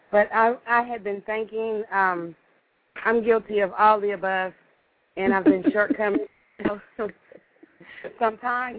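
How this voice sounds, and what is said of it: Voice sounds unwell. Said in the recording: “I'm a little bit under the weather, so excuse my voice.”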